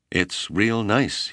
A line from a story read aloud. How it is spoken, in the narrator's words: he stammered